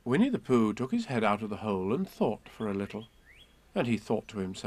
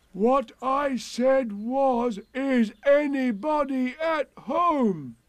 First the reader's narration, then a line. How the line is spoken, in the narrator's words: called out Pooh very loudly